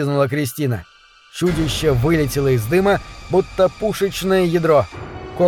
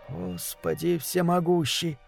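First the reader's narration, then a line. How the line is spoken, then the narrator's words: Whisper. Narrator (Russian): прошептал Захария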